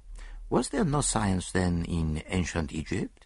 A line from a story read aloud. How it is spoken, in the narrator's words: asked Poirot softly